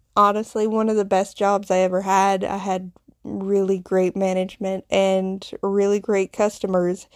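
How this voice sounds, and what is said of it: Southern US Appalachian accent. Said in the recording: “you can probably tell somewhat from my accent. I grew up in the South in the Bible Belt, ... in the foothills of the Appalachian Mountains.”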